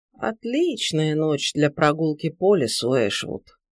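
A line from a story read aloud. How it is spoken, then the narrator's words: Muttering. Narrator (Russian): пробормотала она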